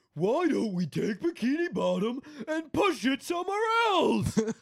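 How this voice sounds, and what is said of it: Imitates a cartoon character's voice. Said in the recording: “Here's my Patrick impression. ... that was spot on.”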